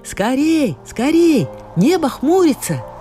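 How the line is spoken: Women shouting from shore. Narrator (Russian): рыбачки прокричали на берегу

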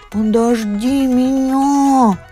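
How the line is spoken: Pleading. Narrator (Russian): взмолилась черепаха

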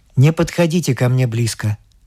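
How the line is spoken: Calm. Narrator (Russian): говорит он спокойно

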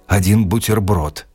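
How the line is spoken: Hoarse. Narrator (Russian): сказал он хрипло

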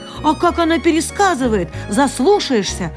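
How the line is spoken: Owl shouting. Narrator (Russian): крикнула сова Софи

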